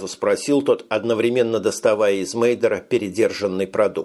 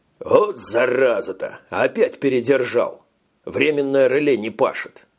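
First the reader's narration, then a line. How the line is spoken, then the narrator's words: Grumbled. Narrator (Russian): пробурчал дежурный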